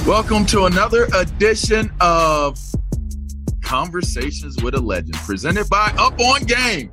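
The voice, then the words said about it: Booming announcer-style radio voice. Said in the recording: “I might sound like I'm in my radio voice, ... trying to sound like, well, Lion-O when he summoned the rest of the Thundercats”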